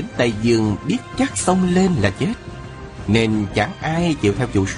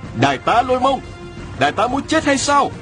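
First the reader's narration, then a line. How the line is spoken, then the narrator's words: Crying out. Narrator (Vietnamese): Bị đắc kêu lên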